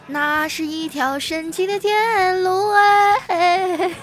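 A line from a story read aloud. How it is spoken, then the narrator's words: Loud singing. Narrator (Chinese): 小明啊大声唱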